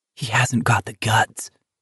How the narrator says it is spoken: Pearson muttered finally

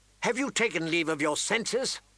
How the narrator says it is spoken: Lysa snapped at her

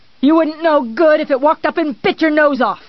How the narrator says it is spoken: he yelled, not caring

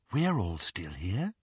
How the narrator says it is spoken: she whispered

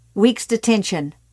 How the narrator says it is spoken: Morton barked

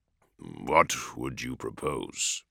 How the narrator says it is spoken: Dorn asked gravely

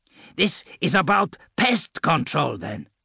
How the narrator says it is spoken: Arke snarled

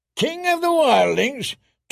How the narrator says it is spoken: Tormund roared

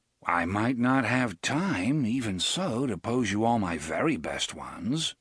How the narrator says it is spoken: Roland said, in a casual, considering tone of voice

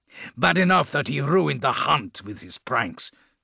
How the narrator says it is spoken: Grimblood snarled

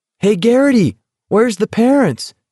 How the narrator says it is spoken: Someone yelled

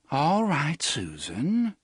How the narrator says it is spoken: she said in a calm, modulated voice

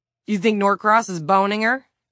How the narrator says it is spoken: Don blurted

